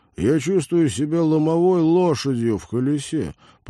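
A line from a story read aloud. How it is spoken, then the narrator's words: Groaning. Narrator (Russian): простонал Теодор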